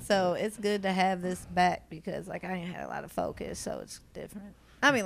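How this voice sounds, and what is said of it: Southern US accent. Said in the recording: “your accent, you're from Louisville ... you have a southern accent”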